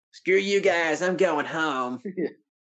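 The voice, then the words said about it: Eric Cartman cartoon voice impression. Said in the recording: “my best Eric Cartman impression ... It's better than any of the ones I can do.”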